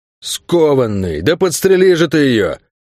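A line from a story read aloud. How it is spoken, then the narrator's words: Gruff growl. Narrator (Russian): рыкнул наемник с топором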